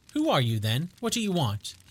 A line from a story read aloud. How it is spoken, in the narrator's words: said in a quavering voice